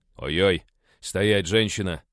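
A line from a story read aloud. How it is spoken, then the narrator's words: Bark. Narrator (Russian): рявкнул я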